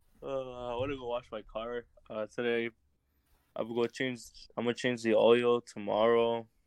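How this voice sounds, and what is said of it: Tired-sounding voice. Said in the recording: “You sound kind of tired.”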